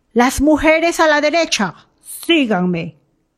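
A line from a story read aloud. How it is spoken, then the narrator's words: Shouted. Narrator (Spanish): alguien gritó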